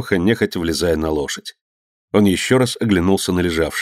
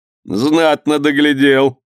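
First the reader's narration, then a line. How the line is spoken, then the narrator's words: Laughing. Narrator (Russian): засмеялся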